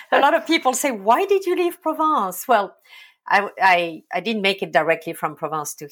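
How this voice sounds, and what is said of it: Non-American accent. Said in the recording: “she does not have an American accent... she is originally from Provence”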